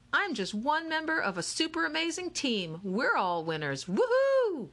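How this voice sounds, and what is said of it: Perky cheerleader voice. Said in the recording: “in her perky cheerleader voice.”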